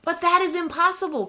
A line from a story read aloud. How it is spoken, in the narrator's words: cried the desperate man